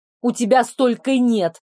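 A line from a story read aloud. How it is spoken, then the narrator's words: Snapped back. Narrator (Russian): огрызнулась в ответ на его провокацию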